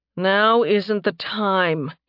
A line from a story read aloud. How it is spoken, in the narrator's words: he growled